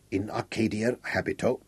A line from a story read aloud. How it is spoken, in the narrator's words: Cumbrae placed one arm around his shoulder and said softly